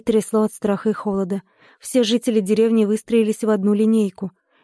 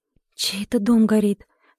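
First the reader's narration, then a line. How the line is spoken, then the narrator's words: Quiet question. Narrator (Russian): тихо спросила Маруся у Поля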